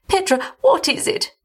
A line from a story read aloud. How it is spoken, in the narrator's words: she begged